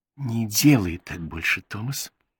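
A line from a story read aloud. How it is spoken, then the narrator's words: Whispered. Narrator (Russian): прошептала Бет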